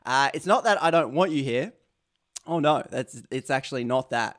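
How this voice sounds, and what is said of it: Australian accent. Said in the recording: “my Aussie accent. I think that adds charm.”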